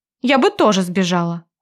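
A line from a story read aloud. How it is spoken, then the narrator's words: Sharp. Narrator (Russian): говорю резко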